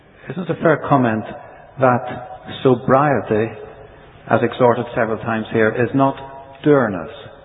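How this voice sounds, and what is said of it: Irish accent. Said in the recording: “my Irish accent”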